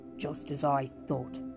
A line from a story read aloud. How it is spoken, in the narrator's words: muttered Trumpkin